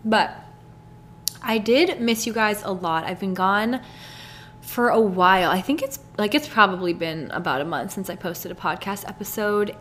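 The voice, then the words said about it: Hoarse, sick-sounding voice. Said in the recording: “I have like a weird chest cold going on right now ... my voice is kind of gone or I sound sick ... every 30 seconds I'm like hacking up a lung”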